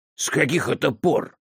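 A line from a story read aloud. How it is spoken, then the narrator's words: Angry question. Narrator (Russian): сердито спросил Пелли Дайорла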